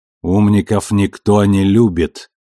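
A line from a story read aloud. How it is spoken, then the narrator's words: Grumbling. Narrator (Russian): проворчала Авасарала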